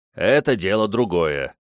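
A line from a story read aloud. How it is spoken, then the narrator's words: Grumble. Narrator (Russian): проворчал Антонио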